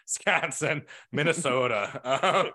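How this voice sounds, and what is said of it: Weak put-on Midwest accent. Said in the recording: “I'm never going to do a Midwest accent again. That's not one of my stronger ones”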